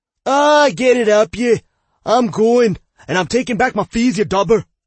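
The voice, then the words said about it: Thick Scottish accent, shouting. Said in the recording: “shouted back with a thick Scottish accent”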